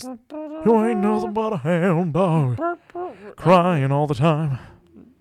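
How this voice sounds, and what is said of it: Sings in an Elvis impression. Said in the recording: “That was a good Elvis.”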